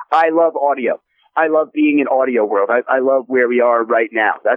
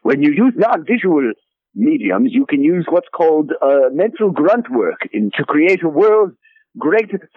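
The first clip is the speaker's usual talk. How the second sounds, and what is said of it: Frasier Crane impression. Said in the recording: “talk in my Fraser Crane voice”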